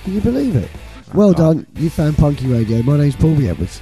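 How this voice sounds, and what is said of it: Gravelly, hoarse voice. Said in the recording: “My voice is still knackered... I am still a gravelly-voiced dirt monster... I'm sure some people really like the gravel.”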